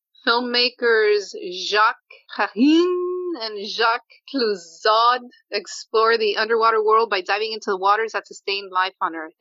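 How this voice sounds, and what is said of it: Put-on French pronunciation. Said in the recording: “an amazing pronunciation on those French names ... I was doing my best French impersonation there”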